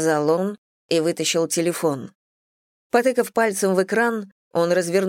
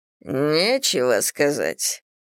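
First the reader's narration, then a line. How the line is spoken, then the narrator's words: Clipped, through teeth. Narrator (Russian): процедил Корриган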